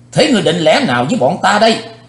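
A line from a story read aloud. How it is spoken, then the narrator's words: Loud bark. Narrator (Vietnamese): Thiếu giáo chủ âm ma đỏ dời cặp mắt, nạt lớn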